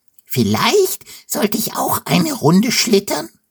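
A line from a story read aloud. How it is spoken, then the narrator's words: Squealing. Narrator (German): quiekt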